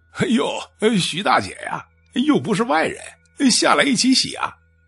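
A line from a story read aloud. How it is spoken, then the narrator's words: Laughing. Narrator (Chinese): 这官大呀笑着说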